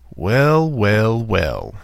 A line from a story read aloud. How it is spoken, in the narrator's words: sneered